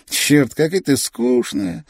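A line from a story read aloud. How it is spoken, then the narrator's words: Loud laughing crow. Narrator (Russian): ворона громко рассмеялась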